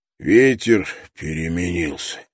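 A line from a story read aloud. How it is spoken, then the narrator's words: Hoarse. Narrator (Russian): прохрипел Брок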